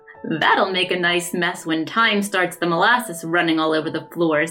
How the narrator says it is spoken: said Jim with a chuckle

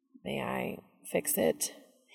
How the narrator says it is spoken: He asks timidly

